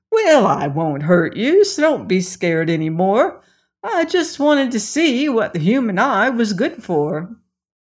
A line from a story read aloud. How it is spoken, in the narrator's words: This greatly pleased the lady, and she said quite cheerfully